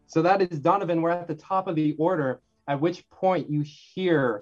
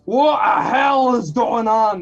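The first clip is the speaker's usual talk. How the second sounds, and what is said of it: Poor put-on character accent. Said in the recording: “That was such a bad accent.”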